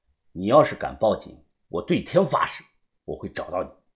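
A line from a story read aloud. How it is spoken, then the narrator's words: Whisper in ear. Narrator (Chinese): 在他的耳旁又轻声的说道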